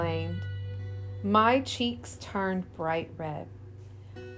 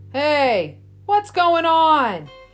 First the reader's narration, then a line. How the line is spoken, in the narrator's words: he hollered